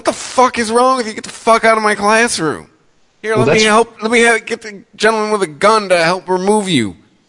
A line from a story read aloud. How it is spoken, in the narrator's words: professor probably been yelling back louder at us